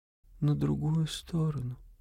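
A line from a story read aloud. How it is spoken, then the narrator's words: Barely audible reply. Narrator (Russian): ответила она еле слышно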